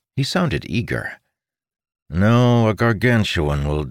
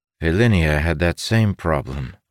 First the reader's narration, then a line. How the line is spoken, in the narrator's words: Amundel said with a sigh